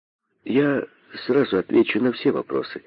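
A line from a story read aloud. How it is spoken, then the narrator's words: Calm, thoughtful answer. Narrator (Russian): спокойно отвечал задумавшийся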